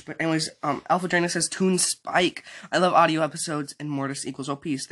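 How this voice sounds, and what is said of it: Sore, strained voice. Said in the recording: “my voice is a little bit sore”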